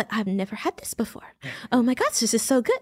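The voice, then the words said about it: Imitates another person's voice. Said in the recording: “That's actually a pretty good impression.”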